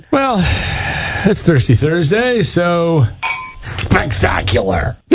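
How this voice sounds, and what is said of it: Croaky drunken frog character voice. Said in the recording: “You sounded like a drunk smoking frog there. ... That was my impression of a drunk smoking frog”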